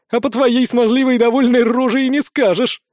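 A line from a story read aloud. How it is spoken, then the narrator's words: Loud laughing. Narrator (Russian): расхохоталась Арчанка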